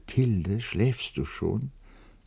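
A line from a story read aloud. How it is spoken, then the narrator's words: Said softly. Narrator (German): leise sagte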